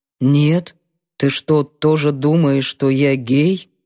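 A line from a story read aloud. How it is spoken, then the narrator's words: Muffled question. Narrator (Russian): Глухо спросил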